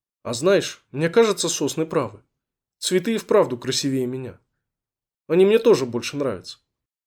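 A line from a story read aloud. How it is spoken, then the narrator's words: Sighing, forest snow. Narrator (Russian): лесной снег вздохнул и сказал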